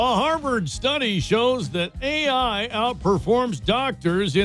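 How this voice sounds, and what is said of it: Usual voice. Nothing is said of it.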